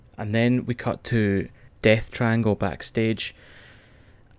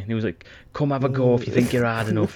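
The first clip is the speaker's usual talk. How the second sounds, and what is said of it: Bad put-on Geordie accent. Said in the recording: “Apologies for my Geordie accent. It's fucking terrible.”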